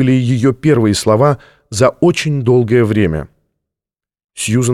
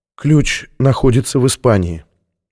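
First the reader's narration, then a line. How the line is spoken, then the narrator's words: Barely audible. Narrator (Russian): еле слышно произнесла Сьюзен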